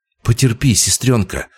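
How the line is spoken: Trembling mutter. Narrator (Russian): дрогнувшим голосом пробормотал Илья

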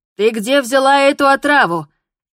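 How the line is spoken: Shouting. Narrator (Russian): кричала на нее

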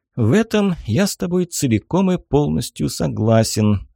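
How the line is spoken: Sighing. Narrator (Russian): вздохнул Инг

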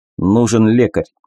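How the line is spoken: Forced calm voice. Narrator (Russian): старался говорить спокойно

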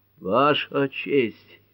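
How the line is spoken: Terrible voice. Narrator (Russian): ужасным голосом начал судья Мартин

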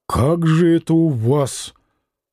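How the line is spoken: Muttering. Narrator (Russian): человек, пробормотав

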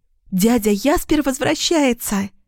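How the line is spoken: Joyful squeal. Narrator (Russian): радостно взвизгнула Лилиана

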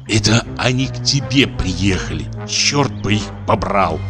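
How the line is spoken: Whisper. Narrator (Russian): шептал ей

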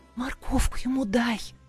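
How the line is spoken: Whisper. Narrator (Russian): прошептала подкравшаяся Жасмин

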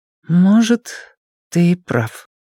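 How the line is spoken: Slow. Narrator (Russian): медленно сказала она

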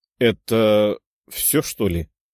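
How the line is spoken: Archer mumbling. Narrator (Russian): пробормотал один из лучников

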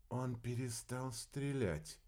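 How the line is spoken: Whisper. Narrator (Russian): Арнелла прошептала

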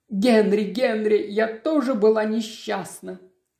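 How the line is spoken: Sobbing. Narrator (Russian): она рыдает

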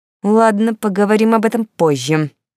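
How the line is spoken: Furious hiss. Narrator (Russian): прошипел Харальд, чуть ли не топая ногами от злости

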